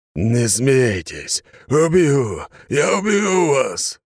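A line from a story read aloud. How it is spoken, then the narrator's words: Monster's roar. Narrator (Russian): рычало чудовище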